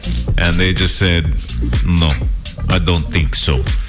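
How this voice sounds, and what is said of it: Put-on Finnish accent. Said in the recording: “That's my Finnish accent, by the way.”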